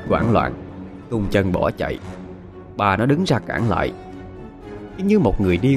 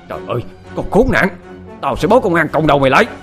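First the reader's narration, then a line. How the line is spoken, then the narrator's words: Shouted. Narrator (Vietnamese): Bà nó lại hét lên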